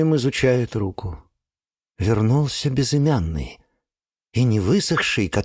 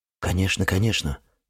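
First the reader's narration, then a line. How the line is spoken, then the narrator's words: Hurried agreement. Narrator (Russian): торопливо соглашается Кириллов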